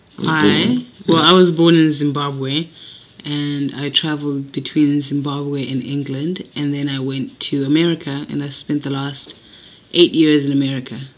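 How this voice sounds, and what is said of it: Mixed American and English accent. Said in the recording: “my accent has a bit of both, more American than English ... it has definitely a bit of both”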